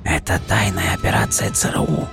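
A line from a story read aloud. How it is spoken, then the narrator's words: Old man, near whisper. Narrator (Russian): Старик почти шепотом произнес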